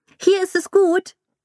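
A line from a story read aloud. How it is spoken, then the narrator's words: Calling across. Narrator (German): rief es zu seinen Eltern hinüber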